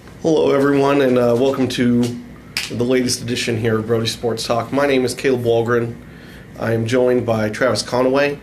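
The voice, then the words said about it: Sick, under-the-weather voice. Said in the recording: “I'm a little bit under the weather. You can probably hear it in my voice.”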